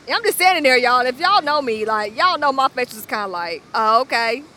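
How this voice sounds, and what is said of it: Southern country accent. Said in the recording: “Atlanta, you hella country... I love your accent, girl... a little country girl”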